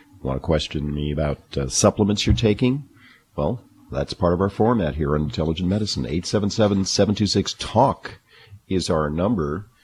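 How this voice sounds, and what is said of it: Hoarse, low-pitched voice. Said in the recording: “my voice is a little different than usual... I just felt a little hoarse... It just afflicted my vocal cords... my voice is in the low octaves”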